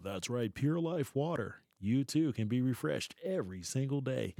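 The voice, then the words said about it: Announcer-style radio commercial voice. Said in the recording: “he can change his voice ... he got the perfect radio voice, television voice, interview voice ... I have that perfect radio voice”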